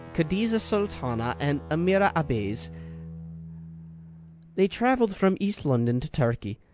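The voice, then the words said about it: Put-on English accent drifting Scottish/Irish. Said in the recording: “I'm going to say this in an English accent. ... Is that Scottish or Irish? I don't know how that accent is changing on me so quickly here.”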